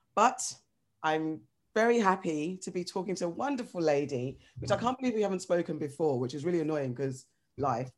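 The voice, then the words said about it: Croaky, rough voice. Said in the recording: “My voice is so croaky today. I don't know what's, I can't even clear it.”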